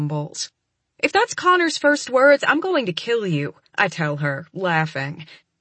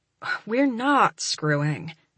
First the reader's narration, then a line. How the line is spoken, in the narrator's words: I sigh